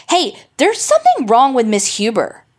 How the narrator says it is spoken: Bobby Duncan called out in a loud voice

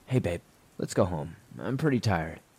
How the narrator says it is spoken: calmly said

